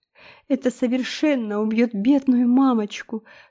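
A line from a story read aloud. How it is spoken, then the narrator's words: Sobbing. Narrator (Russian): всхлипнула Хейзел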